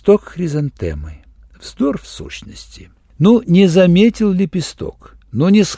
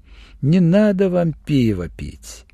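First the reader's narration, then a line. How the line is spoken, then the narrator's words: Laughing. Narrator (Russian): засмеялась Осмеркина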